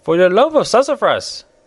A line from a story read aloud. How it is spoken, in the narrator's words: exclaimed